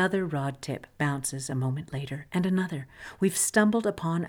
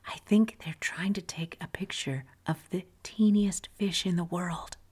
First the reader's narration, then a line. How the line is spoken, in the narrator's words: a woman stage whispers